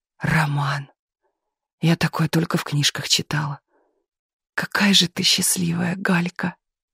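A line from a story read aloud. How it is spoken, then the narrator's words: Women sighing. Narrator (Russian): Соседки по гримерной вздохнули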